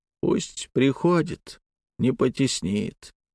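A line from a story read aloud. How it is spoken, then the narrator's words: Quiet. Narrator (Russian): тихо произнесла она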